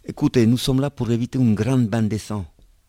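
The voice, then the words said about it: Italian accent in French. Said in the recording (French): “accent italien”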